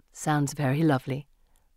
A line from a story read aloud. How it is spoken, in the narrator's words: Miss Moore says gently